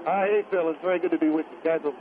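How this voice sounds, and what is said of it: North Carolina accent. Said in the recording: “I frankly detect a more of a North Carolina accent.”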